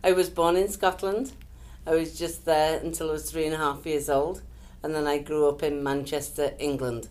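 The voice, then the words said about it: Northern English accent. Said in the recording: “an accent, and it's not a Las Vegas accent... it's a northern accent... almost Scottish”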